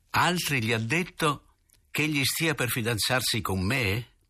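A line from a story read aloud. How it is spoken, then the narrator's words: Loud hollow laugh. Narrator (Italian): Rise forte con la sola voce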